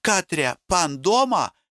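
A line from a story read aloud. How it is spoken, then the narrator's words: Calling upstairs. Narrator (Russian): крикнула на лестницу вверх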